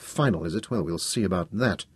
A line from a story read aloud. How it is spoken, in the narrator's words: I muttered under my breath